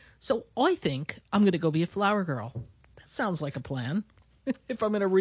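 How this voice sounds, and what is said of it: Usual voice. Nothing is said of it.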